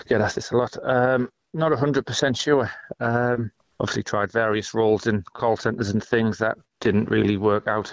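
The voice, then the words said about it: North East English accent. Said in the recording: “right accent for call centres. Your, East accent's the one they like”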